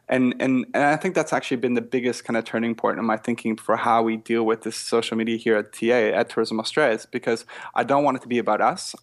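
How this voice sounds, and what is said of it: Canadian accent. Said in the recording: “I'm Canadian from my accent.”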